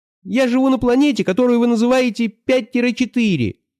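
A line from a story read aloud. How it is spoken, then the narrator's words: Tiny whining voice. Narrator (Russian): сказал Шар комариным голосом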